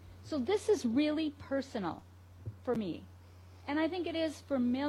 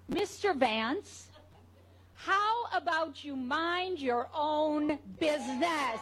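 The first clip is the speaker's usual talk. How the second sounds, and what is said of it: Stern teacher voice. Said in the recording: “let me use my teacher voice.”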